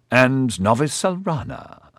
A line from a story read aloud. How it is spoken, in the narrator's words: Finnerton said smoothly